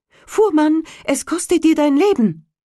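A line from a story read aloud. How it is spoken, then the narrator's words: Calling out. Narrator (German): Der Sperling rief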